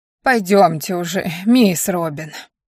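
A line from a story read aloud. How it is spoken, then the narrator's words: Mutter. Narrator (Russian): пробормотала догнавшая меня Нана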